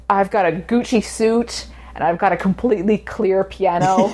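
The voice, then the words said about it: Fake New York accent, James Franco. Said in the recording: “has this annoying New York accent, incredibly fake New York accent”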